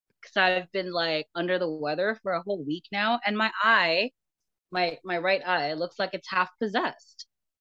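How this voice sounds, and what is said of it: Unusually deep, low sick voice. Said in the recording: “my voice sounds 2 octaves lower”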